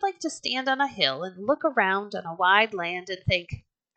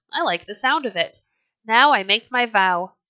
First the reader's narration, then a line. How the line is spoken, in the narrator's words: he cried